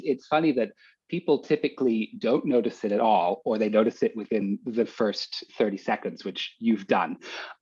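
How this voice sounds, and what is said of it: Slight English accent. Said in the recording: “I'm also detecting an accent ... There is a tiny bit of an accent ... my mom was english ... I've picked up a little bit of her accent over the years”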